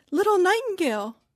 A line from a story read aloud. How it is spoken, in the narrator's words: cried the girl, raising her voice